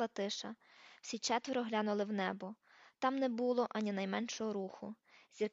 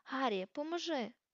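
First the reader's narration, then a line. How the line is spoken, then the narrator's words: Hoarse, stuck shout. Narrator (Ukrainian): хрипко вигукнув Хегріт, бо знову застряг у дверях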